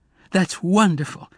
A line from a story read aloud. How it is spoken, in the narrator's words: Emma exclaimed